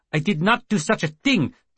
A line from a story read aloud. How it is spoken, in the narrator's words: Petchkin shouted